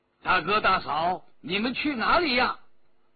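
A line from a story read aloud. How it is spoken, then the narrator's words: Calling out. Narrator (Chinese): 陆飞青叫道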